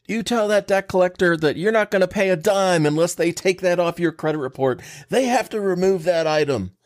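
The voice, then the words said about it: Mock voice of online know-it-all. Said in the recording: “your Facebook warrior voice impression. I think it's spot on.”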